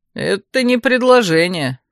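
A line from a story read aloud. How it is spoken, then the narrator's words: Snorting. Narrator (Russian): фыркнул цвак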